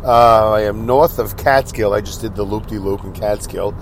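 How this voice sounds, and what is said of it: Sick, under-the-weather voice. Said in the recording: “hear it in my voice, but I'm under the weather”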